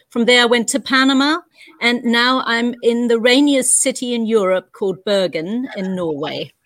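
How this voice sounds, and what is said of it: New Zealand accent. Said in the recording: “As you can probably hear by my accent, I come from New Zealand”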